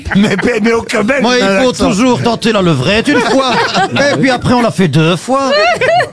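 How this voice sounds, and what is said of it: Put-on Belgian accent. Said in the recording (French): “cet accent belge que vous faites”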